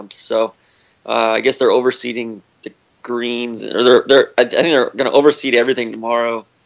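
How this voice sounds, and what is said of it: Sick-sounding voice. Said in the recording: “I apologize for my voice. I probably sound worse than I feel. I've been sick the last few days”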